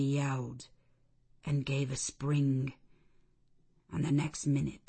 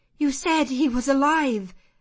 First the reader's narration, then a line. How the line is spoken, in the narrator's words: I exclaimed